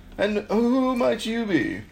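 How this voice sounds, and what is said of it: Weird character voice. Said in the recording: “That's a weird voice.”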